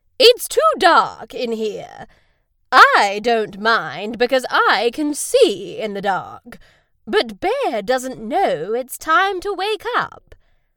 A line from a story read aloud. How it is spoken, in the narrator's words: Owl hooted loudly